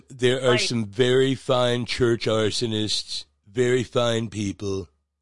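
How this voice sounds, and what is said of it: Imitates another person's voice. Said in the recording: “that was a really good impersonation.”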